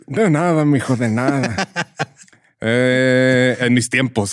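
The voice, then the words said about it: Old northern Mexican man voice. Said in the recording (Spanish): “Así hablan todos los abuelitos en el norte ... esa voz ... hacer voz de ruco”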